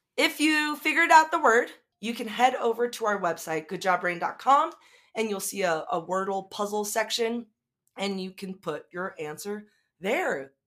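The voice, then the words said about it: Voice fading, going hoarse. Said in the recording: “my voice is starting to to, to go away.”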